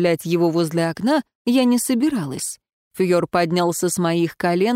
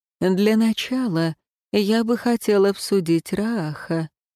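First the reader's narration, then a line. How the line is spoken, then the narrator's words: Soft but firm objection. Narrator (Russian): мягко, но непреклонно возразил Светлейший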